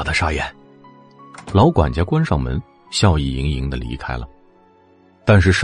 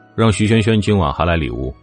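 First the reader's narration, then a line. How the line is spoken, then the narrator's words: Flat, indifferent. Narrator (Chinese): 冷风淡淡的回应了一句…又附加了一句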